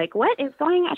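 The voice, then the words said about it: Imitates a mother's voice. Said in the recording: “mom voice”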